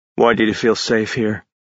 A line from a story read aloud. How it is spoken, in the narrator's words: Ash said in a serious tone